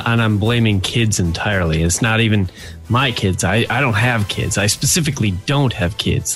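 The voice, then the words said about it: Sick voice with a cold. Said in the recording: “I am sick. I have a cold.”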